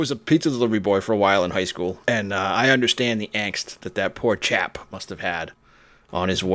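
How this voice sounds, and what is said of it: Usual voice. Nothing is said of it.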